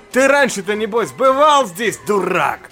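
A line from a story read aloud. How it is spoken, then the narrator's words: Shout breaking into cough. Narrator (Russian): Выкрикнул и закашлялся доктор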